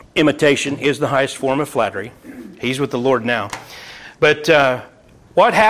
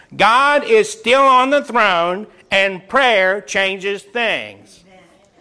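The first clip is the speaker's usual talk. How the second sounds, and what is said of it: Impression of preacher Noah Hutchings. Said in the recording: “Noah Hutchings on Southwest Radio Church used to always say it. ... That's my imitation.”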